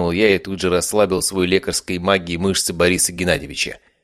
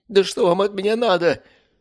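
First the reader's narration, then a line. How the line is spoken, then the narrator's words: Pleading. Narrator (Russian): взмолился Борис Геннадьевич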